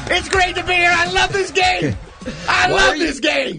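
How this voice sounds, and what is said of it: Loud, screaming game-show host voice. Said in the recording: “why are you always so loud? Why are you screaming at us?”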